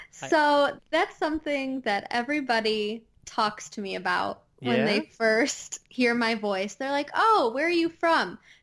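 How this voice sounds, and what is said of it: Midwestern American accent with twang. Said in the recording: “That explains the accent... my, voice just uh, it has that extra Midwest twang to it”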